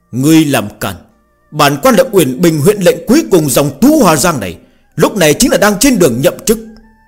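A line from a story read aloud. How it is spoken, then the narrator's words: Loud shout. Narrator (Vietnamese): Nam nhân hét to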